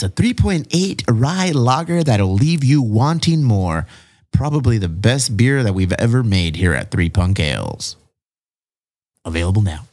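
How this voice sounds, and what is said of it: Smooth radio announcer voice. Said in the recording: “I think I've perfected my radio voice. ... That was very, very good.”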